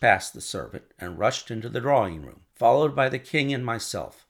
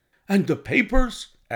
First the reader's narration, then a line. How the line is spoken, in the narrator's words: asked the king hoarsely